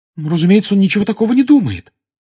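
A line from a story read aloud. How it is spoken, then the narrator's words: Excited exclamation. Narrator (Russian): с волнением воскликнула Гермиона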